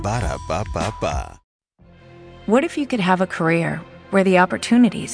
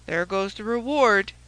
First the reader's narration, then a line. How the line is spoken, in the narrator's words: said he gloomily